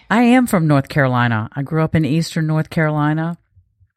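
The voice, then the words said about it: Eastern North Carolina Southern accent. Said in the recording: “this accent ... I absolutely love your accent ... a little bit of South, a little bit of Southern”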